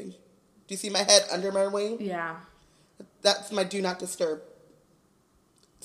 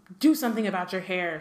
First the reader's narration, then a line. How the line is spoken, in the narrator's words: she snapped